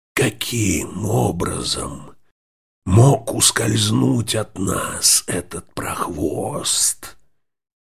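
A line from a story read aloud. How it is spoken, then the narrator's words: Hoarse wheeze. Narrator (Russian): хрипел Бонда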